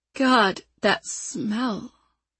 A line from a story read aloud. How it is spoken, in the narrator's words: she said, her voice trailing off